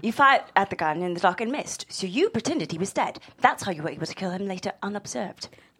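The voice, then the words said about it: Put-on British accent. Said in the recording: “Let me just do this in a British accent.”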